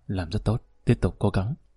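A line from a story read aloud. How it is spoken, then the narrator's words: Quiet voice. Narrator (Vietnamese): nhỏ giọng nói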